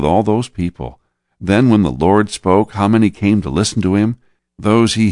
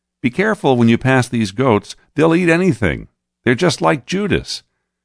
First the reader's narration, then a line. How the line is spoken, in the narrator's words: James, the brother of John, called out